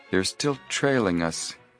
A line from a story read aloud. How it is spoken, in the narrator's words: Joe murmured